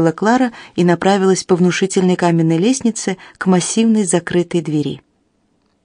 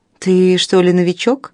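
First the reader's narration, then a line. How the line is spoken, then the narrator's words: Mocking question. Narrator (Russian): насмешливо поинтересовалась Клара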